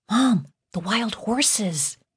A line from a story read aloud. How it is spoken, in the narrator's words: whispered again